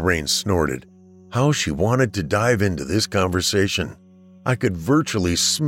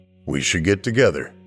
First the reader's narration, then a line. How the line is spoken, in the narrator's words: I said